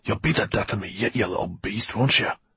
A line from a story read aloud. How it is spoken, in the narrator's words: He hissed at him